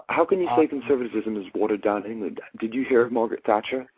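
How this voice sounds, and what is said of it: American speaker with an English-influenced accent. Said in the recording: “You have an accent, though. ... I do have an accent. I've been in university in England for the last 5 years.”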